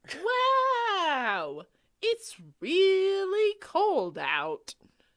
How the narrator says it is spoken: exclaimed

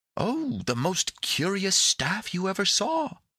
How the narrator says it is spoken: cried Epimetheus

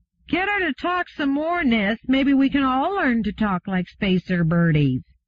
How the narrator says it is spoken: one cried out

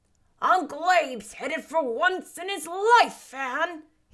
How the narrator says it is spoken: he shouted

